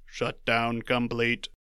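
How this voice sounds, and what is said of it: Robot voice. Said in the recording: “Do your shutdown complete with a robot voice.”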